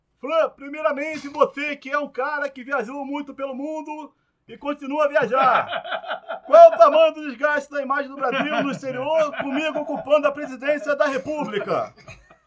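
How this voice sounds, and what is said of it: Imitates another person's voice. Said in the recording (Portuguese): “imitando o Bolsonaro ... sobre o Bolsonaro imitando o Bolsonaro”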